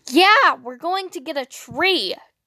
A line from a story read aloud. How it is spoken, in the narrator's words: Dean said excitedly, doing a jittery little hop of elation